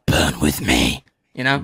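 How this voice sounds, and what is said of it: Put-on deep voice. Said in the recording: “That was a good deep voice, you know? That was a good deep voice.”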